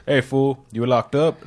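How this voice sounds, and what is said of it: Deep cholo accent. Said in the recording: “He had like a deep like cholo accent.”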